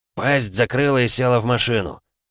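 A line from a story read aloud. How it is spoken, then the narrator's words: Barked order. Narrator (Russian): рявкнул на нее Владимир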